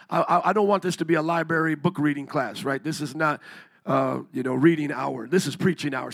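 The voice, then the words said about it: Hoarse, strained voice. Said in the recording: “even though my voice is out”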